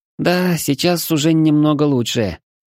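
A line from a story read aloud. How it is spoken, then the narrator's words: Slightly uncertain, smiling. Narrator (Russian): немного неуверенно улыбнулась чешуйка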